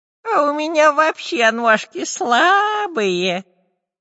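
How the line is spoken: Nasty-voiced declaration. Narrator (Russian): противным голосом заявил Дырка

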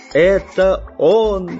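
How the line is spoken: Cheerful shout. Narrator (Russian): весело закричал географ

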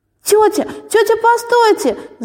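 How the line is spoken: Shouting. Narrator (Russian): закричала Валя

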